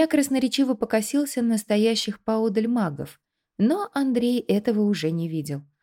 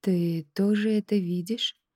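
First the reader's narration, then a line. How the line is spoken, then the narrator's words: Barely audible question. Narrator (Russian): едва слышно спросил он у Баума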